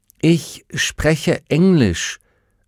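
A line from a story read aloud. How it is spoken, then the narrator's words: Slow, clear speech. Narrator (German): sagte Will langsam und deutlich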